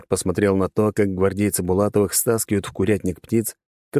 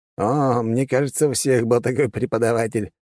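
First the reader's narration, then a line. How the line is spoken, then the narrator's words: Laughing. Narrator (Russian): рассмеялся младший маг земли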